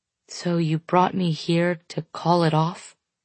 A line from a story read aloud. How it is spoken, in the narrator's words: He sighs heavily